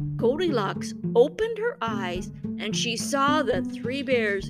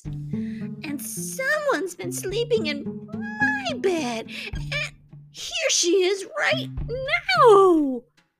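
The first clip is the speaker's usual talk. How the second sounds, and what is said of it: Tiny, small baby-bear voice. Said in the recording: “cried the baby bear in his wee little voice.”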